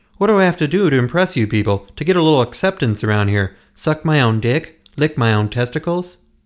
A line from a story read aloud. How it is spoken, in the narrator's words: shouted to everyone present